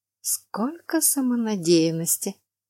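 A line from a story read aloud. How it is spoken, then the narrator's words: Whispered. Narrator (Russian): Шепотом прокомментировала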